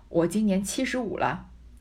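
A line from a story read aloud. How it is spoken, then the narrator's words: Stern, hasty reply. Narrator (Chinese): 刘姥姥忙厉声答道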